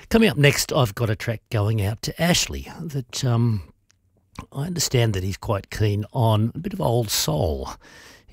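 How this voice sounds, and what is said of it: Voice affected by a cold. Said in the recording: “You can probably hear from my voice I'm recovering from a cold.”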